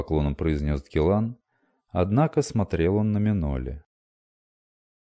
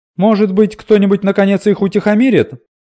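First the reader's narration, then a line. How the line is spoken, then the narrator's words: Exclaiming. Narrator (Russian): воскликнула Лесса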